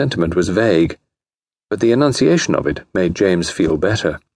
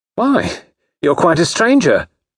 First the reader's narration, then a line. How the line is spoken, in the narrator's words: cried Grace archly